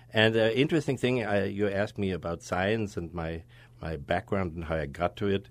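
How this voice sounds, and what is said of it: German accent. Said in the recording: “my accent, from my Schwarzenegger-like accent ... I'm born in Germany”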